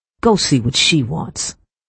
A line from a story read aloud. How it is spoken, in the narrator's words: she spat